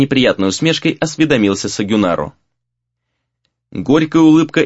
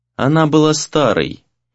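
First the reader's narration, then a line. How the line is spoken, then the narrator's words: Unexpectedly resonant voice. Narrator (Russian): неожиданно звучным голосом произнесла Сора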